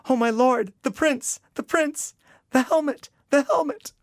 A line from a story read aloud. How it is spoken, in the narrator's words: A volley of cries, voices replied